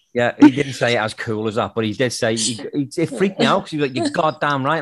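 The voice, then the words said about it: Speaks with a noticeable accent. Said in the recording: “because of my accent”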